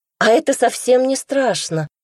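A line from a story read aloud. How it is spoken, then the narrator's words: Cheerful exclamation. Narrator (Russian): весело воскликнула она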